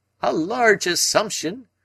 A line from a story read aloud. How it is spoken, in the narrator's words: cried Summerlee